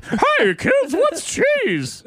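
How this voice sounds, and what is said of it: Goofy cartoon voice of Forky. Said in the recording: “Is it like this? ... that's kind of what the voice sounds like ... goofy cartoon voice ... Am I Forky?”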